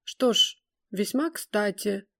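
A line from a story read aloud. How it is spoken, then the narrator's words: High, somewhat sharp voice. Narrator (Russian): своим высоким, несколько резким голосом ответил господин Фридеман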